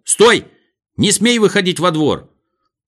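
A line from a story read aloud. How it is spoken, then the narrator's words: Frightened shout. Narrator (Russian): он закричал с испугом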